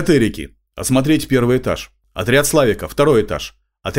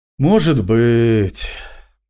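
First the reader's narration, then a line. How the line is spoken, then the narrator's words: Sigh. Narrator (Russian): вздохнул я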